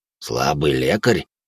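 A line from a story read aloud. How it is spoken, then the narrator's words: Snort. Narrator (Russian): хмыкнул Седой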